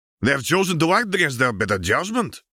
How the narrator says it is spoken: Abreu growled

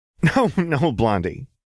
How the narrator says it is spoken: Jinx laughed

